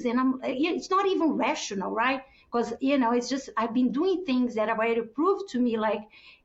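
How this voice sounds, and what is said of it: Non-native English accent. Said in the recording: “You have accent. You're different.”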